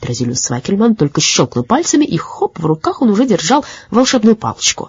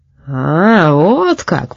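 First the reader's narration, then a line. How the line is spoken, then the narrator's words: Speaking then laughing. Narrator (Russian): произнес Петрозилиус Цвакельман и засмеялся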